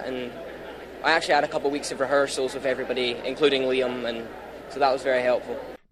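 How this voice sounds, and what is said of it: Scottish accent. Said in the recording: “I'm Scottish, of course”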